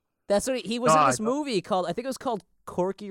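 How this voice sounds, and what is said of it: Usual voice. Nothing is said of it.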